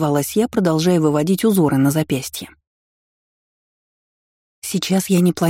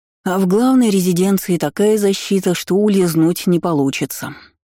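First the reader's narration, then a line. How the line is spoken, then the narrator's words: Sighing. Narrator (Russian): вздохнул Алераон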